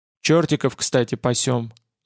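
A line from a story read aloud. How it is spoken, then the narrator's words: Quiet statement. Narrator (Russian): сообщил тихо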